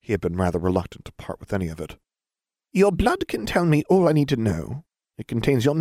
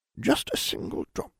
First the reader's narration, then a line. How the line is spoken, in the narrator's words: the healer muttered